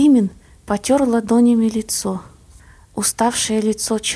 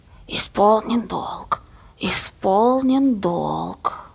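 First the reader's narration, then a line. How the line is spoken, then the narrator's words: Hissed prompt from backstage. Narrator (Russian): Баба Лиза, решив очевидно, что Сенька забыл текст, шипела из-за кулис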